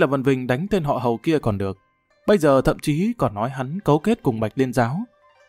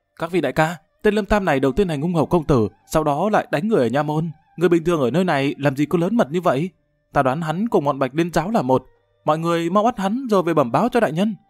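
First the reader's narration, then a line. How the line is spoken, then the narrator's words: Defiant raised voice. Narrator (Vietnamese): Uyển Doanh nổi tính quật cường cao giọng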